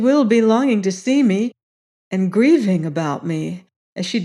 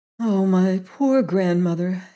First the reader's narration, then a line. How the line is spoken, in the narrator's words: sighed Gerda